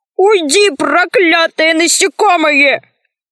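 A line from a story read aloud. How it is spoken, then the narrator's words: Piercing scream. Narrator (Russian): Он так пронзительно закричал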